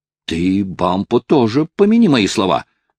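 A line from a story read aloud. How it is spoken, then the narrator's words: Shouted while hastily retreating. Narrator (Russian): крикнул Хайрем, в то же время поспешно ретируясь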